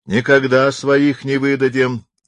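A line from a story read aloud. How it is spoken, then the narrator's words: Drunken shout. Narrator (Russian): крикнул с хоров пьяный голос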